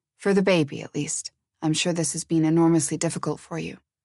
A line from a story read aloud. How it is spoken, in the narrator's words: he said in a low voice